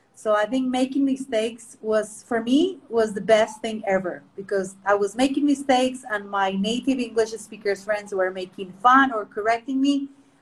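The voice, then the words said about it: Mixed British, American, Colombian accent. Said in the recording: “My accent is a mix of British, American, and Colombian”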